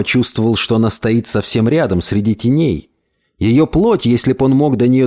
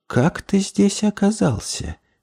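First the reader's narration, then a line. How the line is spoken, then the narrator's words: Quiet question. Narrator (Russian): тихо спросил ее голос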